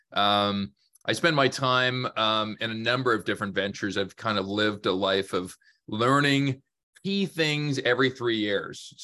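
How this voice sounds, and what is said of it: Canadian accent. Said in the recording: “my accent ... born, raised in Canada”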